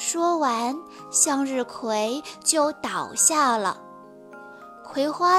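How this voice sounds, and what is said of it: Usual voice. Nothing is said of it.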